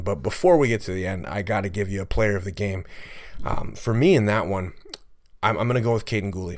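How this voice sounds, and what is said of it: Hoarse, fading voice. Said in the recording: “I don't know if you guys can hear it through the mic, but I'm losing my voice as I continue to record this podcast”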